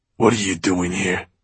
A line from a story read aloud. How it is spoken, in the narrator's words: he snarled at him and the men with him